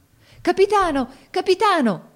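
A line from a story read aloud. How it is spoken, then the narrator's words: Crowd shouting together. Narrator (Italian): gridarono tutti insieme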